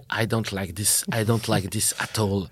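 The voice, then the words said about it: Herzog impression, well-known accent. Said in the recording (French): “Avec accent bien connu.”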